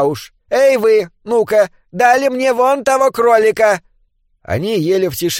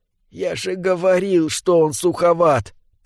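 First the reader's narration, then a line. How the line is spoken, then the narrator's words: Whisper. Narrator (Russian): прошептал собрат номер два собрату номер один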